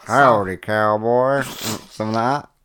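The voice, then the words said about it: Poor attempt at Southern US accent. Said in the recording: “doing a southern accent instead ... What's a southern, you know, like Texas and all that, like South ... That was shit, wasn't it?”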